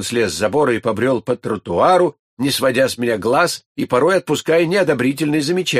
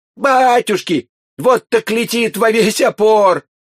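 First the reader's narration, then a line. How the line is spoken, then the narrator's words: Contemptuous yell, boy. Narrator (Russian): мальчишка преисполнился презрения и завопил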